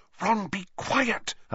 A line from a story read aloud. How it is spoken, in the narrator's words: Hermione whispered urgently